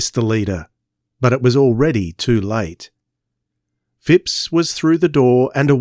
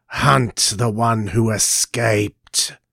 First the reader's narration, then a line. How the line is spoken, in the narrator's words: hissed the alien leader